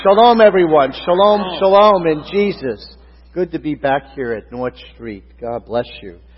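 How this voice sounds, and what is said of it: New York accent. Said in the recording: “you might detect that New York accent ... that's when the Brooklyn comes out”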